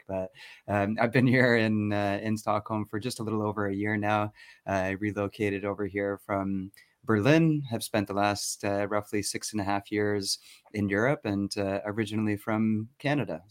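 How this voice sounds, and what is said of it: North American accent. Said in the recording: “you may not hear a Swedish accent ... I was going to say definitely North American.”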